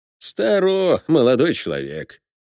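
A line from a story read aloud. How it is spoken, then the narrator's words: Lazy retort. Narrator (Russian): лениво парировал смотритель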